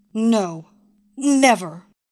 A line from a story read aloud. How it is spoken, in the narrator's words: she spat out, but this time with diminishing confidence